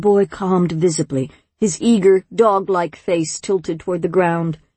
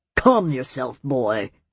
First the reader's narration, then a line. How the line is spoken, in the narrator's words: the elder snapped